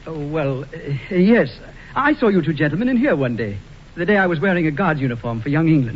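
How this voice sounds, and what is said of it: English accent. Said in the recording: “He's got an English accent.”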